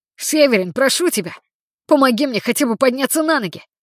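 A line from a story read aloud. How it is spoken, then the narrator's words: Shouted. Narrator (Russian): закричал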